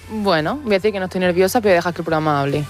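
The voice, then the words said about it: Almería Andalusian Spanish accent. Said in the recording (Spanish): “te ha salido tu acento de Almería”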